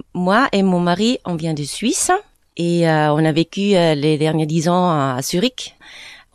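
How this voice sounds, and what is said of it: Slight foreign accent in French. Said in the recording (French): “vous avez un léger accent”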